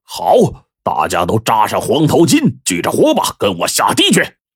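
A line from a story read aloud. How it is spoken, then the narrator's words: Joyful roar. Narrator (Chinese): 黄老大呢，高兴的大笑一声，大吼一声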